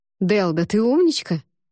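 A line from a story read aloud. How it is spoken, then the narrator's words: Sudden exclamation. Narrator (Russian): вдруг воскликнул Эван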